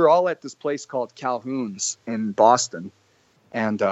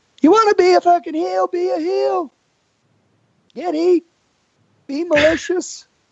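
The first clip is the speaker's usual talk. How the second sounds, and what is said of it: Impression of wrestler Arn Anderson. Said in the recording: “I hope I can still do Arn ... I start doing Arn”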